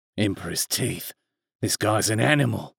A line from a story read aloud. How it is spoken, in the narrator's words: hissed